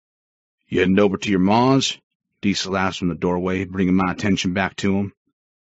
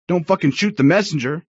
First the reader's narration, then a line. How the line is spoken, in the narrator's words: he yelled out behind me